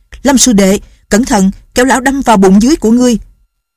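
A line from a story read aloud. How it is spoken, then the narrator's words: Alarmed shout. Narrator (Vietnamese): Lệnh Hồ Xung hắn la lên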